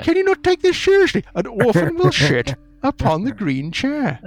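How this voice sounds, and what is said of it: Put-on accent, solemn prophecy voice. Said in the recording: “My accent is causing these prophecies to lose much of their seriousness.”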